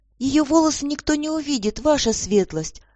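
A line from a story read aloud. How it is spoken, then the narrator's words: Timid little maid's interjection. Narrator (Russian): Робко вмешалась в разговор маленькая служанка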